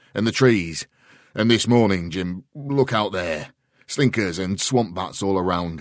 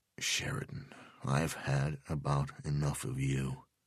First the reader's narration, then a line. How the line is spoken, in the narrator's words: Delvecchio said quietly